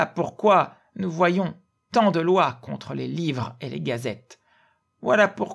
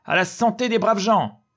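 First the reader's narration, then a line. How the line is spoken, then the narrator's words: Shouting. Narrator (French): il criait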